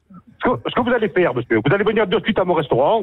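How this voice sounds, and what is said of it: Corsican accent. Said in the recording (French): “tu vas arrêter ce petit accent ... je le vois venir, l'accent”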